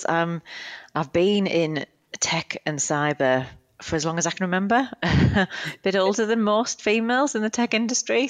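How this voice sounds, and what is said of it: British accent. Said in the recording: “you'll tell from my accent, I'm originally from the UK”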